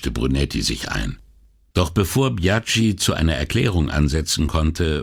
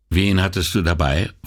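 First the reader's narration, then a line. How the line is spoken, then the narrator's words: Plain question. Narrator (German): fragte Repeta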